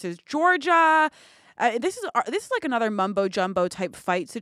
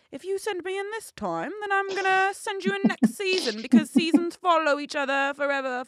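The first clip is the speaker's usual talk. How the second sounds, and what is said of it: Poor attempt at London British accent. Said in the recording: “he's British ... I can't do the Geordie accent. I can only do London, but that was shit either way.”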